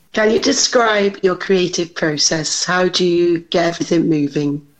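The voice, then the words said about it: Speaks with a noticeable accent. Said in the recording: “give him your best accent too.”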